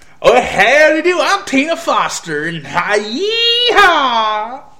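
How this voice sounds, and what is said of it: Stereotypical put-on Texas accent. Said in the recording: “hilarious in her accent ... she's from Texas ... Not quite, but, you know, that's a, not quite as stereotypical, but still pretty much stereotypical”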